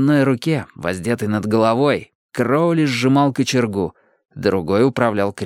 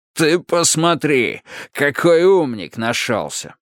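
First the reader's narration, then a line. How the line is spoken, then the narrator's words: Displeased tone. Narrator (Russian): Поняв по тону голоса, что их хозяин недоволен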